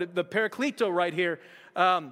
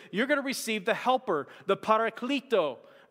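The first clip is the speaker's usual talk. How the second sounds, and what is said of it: Poorly done put-on Hispanic accent. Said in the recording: “that was a Hispanic accent that was just wrong ... that was just all off”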